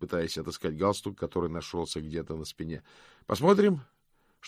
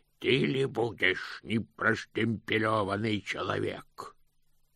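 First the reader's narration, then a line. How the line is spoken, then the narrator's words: Growled. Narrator (Russian): прорычал один из них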